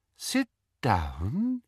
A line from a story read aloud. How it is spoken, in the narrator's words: said Umbridge in her soft, silky voice